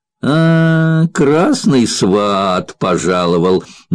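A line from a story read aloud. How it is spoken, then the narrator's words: Mocking drawl. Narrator (Russian): насмешливо протянул Куделин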